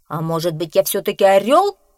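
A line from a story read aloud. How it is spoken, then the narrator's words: Menacing question. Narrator (Russian): грозно спросил петух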